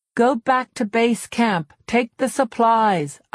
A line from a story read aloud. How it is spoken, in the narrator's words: I shouted, trying again